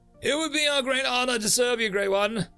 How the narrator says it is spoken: the leader shouts

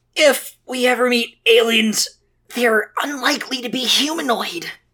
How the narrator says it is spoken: he murmured

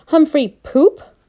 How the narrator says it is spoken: yelled

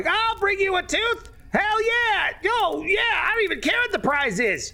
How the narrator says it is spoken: the red caps are all shouting like

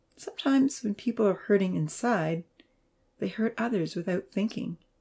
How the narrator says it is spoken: he said softly

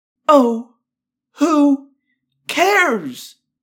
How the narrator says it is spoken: Cassie cried

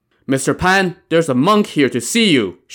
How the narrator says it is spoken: Shi Xiu called out to the back of the house

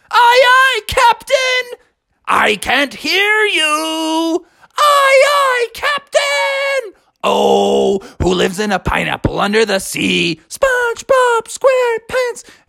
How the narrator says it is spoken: Froggy yelled out

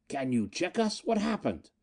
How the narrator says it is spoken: Miko gasped

